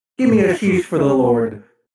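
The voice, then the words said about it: Strange alien-like voice. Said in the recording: “You sound like an alien.”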